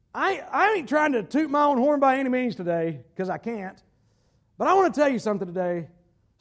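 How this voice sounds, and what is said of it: North Carolina Southern accent. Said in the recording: “They hear my accent. I'm from North Carolina.”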